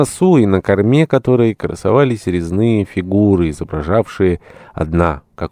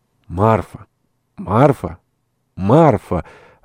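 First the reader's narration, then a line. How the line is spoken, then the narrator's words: Muffled strange burring voice. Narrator (Russian): раздался какой-то глухой, странный, точно картавый голос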